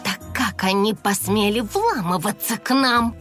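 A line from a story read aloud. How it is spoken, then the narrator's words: Indignant hiss. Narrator (Russian): негодующе прошипела Сторми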